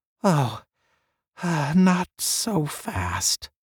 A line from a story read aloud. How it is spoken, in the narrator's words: Lingman murmured